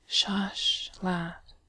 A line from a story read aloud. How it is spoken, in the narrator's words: Bilbo murmurs kindly